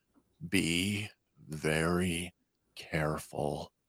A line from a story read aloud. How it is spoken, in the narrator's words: From below, Hunter calmly and slowly tells her